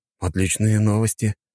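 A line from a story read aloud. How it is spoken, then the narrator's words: Tired. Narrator (Russian): устало потянувшись, произнес я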